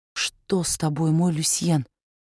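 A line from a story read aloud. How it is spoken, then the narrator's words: Whispered into ear. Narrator (Russian): шепотом сказала она своему другу, коснувшись губами его уха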